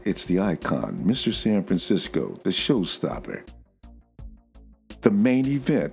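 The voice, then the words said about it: Imitates another person's voice. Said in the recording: “my HBK imitation.”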